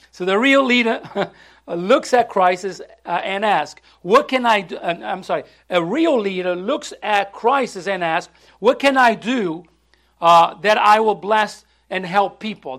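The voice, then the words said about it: Speaks with a foreign accent. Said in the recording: “I can't get it. My tongue is not going. I'm sorry. It's my accent.”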